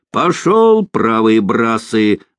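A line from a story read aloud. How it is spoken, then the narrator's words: Boatswain shouting. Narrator (Russian): закричал боцман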